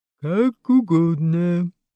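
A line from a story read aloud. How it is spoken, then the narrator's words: Grumbling lion. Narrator (Russian): пробурчал лев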